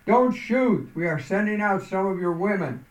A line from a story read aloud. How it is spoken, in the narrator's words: The man with the flag called out